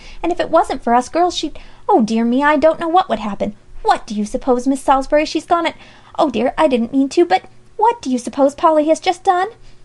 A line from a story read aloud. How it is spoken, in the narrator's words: Alexia rushed on frantically